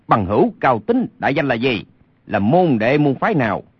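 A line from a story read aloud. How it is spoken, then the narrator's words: Angry shout. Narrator (Vietnamese): Lê Sinh thấy tình hình như thế, lửa giận bốc lên quát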